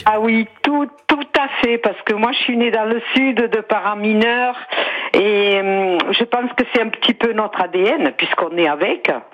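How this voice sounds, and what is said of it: Sing-song southern French accent. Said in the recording (French): “Avec un joli accent chantant également ... l'accent sévenol ... on dirait qu'elle chante quand elle parle”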